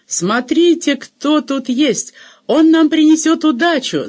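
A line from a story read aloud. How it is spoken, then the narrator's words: Delighted shout. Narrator (Russian): закричала она в восторге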